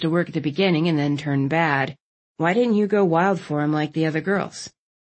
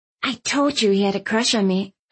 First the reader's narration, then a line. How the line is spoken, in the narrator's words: I hissed at Landon, smirking